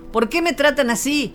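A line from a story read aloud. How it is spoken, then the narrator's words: Shouted. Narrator (Spanish): gritó Anctomi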